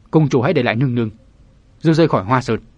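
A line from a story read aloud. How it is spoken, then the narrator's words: Hesitant, stern, word by word. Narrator (Vietnamese): Dự Tòng lưỡng lự, nghiêm giọng nói từng tiếng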